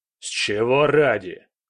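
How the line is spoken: Guard growling. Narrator (Russian): прорычал первый охранник

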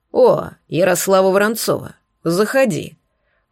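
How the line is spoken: Bear's growl. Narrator (Russian): прорычал медведь

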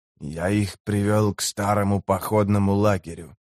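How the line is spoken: Whispered. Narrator (Russian): прошептал нижеземец

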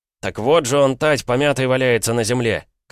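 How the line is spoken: Shouting. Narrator (Russian): крикнул он

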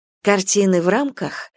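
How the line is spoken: Calm. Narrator (Russian): заговорила спокойно

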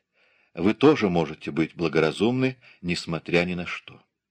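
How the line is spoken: Whispered reply. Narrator (Russian): Она прошептала в ответ

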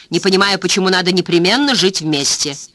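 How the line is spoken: Sharp. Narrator (Russian): резко добавила Дженни Филдс

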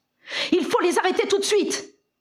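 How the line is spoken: Exclaimed. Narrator (French): s'écria Harry

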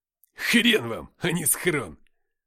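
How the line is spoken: Said loudly. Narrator (Russian): громко сказал Никита

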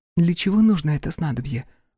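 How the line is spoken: Whisper. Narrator (Russian): прошептала Торио

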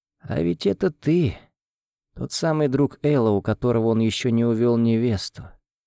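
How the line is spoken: Faint smiling whisper. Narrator (Russian): прошептала она и слабо улыбнулась

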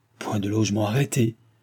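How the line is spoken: Trembling, surprised, angry. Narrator (French): répéta-t-il d'une voix tremblante, qui marquait sa surprise et sa colère

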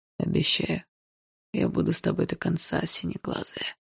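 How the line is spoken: Hoarse, intimate voice. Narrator (Russian): хрипло сказал Барс

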